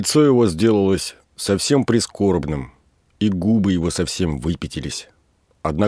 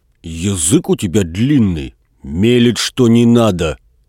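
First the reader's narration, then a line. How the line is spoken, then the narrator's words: Angry. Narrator (Russian): сердито сказал Передонов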